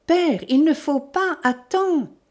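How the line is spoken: Exclamation. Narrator (French): s'écria Suzanne

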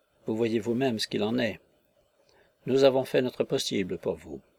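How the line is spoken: Deep sigh. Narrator (French): Le gargotier avec un profond soupir

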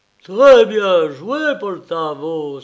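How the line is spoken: Exclaimed. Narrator (French): s'écria-t-il

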